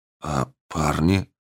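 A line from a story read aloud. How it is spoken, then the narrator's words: Quiet whisper. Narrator (Russian): тихо прошептал ректор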